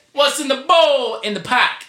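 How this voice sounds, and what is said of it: Failed attempt at Boston accent. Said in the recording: “I was trying to do the Boston accent ... that's not a Boston smart, accent.”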